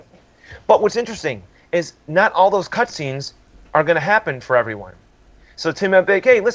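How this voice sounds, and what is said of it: Usual voice. Nothing is said of it.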